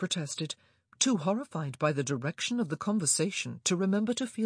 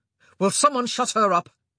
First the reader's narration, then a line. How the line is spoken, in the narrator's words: Anthony snapped